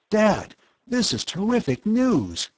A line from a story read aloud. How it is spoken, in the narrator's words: he exclaimed